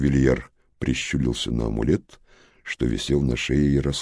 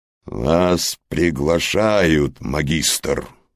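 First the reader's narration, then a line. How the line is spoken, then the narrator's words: Sudden growl into device. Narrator (Russian): вдруг рыкнул в жучка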